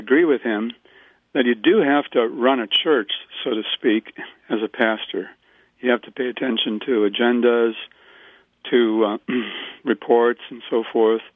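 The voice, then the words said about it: Hoarse voice. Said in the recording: “Excuse me, I apologize for my hoarseness here.”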